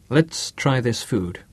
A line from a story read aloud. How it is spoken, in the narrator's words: he said